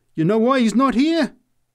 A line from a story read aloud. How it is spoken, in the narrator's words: she answered triumphantly